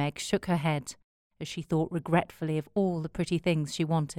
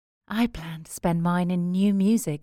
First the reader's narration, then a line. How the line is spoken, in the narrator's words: said Beth, with a little sigh